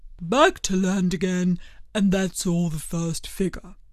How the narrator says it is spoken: said the Mock Turtle, suddenly dropping his voice

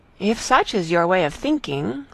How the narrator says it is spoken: said Marianne

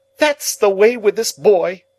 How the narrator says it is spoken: exclaimed my sister

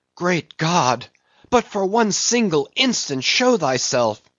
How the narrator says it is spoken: cried Starbuck

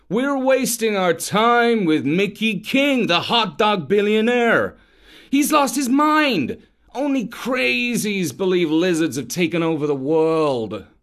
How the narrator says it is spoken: he moaned

